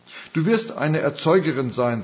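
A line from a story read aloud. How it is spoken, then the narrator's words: Plain. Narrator (German): sagte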